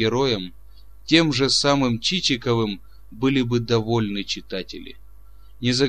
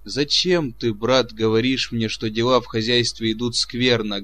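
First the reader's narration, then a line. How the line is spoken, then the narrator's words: Plain. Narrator (Russian): говорит помещик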